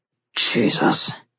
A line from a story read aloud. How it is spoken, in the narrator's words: said on a low, fierce growl